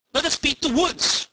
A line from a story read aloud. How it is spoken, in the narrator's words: cried several at once